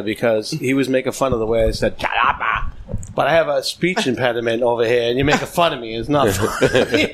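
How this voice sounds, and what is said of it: Boston accent. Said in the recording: “I have a Boston accent.”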